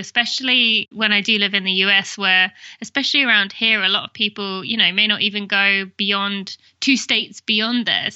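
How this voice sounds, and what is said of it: British English accent. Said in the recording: “people could probably tell from my accent, which is Great Britain. I'm from England.”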